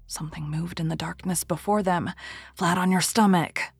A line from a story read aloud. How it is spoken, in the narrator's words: whispered the Persian